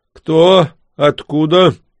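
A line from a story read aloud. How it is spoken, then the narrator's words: Grunt, deep bass voice. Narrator (Russian): хмыкнул и пробасил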